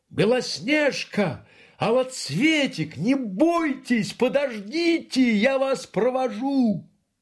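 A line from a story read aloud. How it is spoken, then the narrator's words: Bear shouting after. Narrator (Russian): медведь крикнул им вслед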